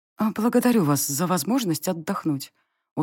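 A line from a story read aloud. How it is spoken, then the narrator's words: Tired, smiling. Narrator (Russian): устало улыбнулась я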